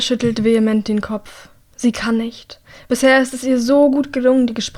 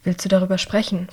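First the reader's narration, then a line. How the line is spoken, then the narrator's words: Plain. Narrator (German): fragt er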